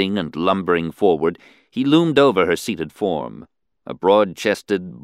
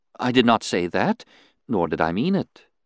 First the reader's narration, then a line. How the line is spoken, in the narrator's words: she responded soothingly